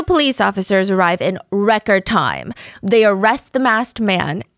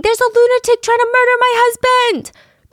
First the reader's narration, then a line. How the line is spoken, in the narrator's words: wife is screaming